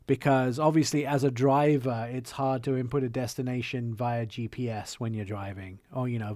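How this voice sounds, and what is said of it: English accent. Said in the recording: “with an English accent”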